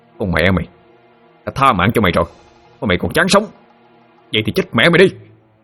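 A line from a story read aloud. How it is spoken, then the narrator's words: Shout. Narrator (Vietnamese): Thụy quát lên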